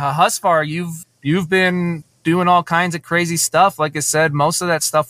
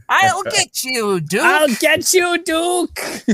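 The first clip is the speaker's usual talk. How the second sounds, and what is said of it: Cobra Commander-like character voice. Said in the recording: “doing that voice like that ... Everyone said I sound like Cobra Commander ... a little, yeah, you do.”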